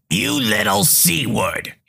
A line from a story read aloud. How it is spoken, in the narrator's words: she hisses